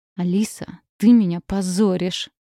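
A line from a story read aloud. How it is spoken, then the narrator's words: Hissing through teeth. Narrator (Russian): сквозь зубы шипел Артём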